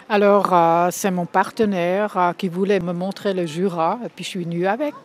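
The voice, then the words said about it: Slight Bernese accent in French. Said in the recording (French): “J'entends un petit accent, j'ai tort ou pas? ... Vous avez raison, de Berne.”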